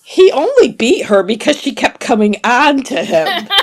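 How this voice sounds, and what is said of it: Usual voice. Nothing is said of it.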